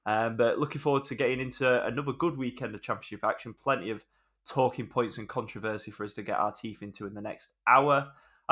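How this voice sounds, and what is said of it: Slightly nasal, congested voice. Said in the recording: “I've got a little bit of a cold, so apologies if I sound a little bit nasally ... I think I might be a bit bummed up, so apologies if it sounds like that”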